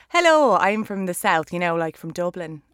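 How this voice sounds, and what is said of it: Put-on southern Irish accent. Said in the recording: “you do a solid Irish... I get the Irish accent out when I can... Can you do the difference in the Irish?”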